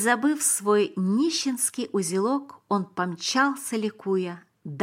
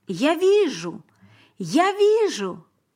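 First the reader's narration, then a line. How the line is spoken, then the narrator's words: Shouting. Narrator (Russian): Теперь он кричал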